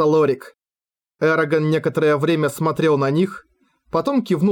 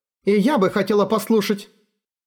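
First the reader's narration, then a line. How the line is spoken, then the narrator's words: Friendlier tone. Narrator (Russian): сказала Имиладрис, хотя и куда более доброжелательным тоном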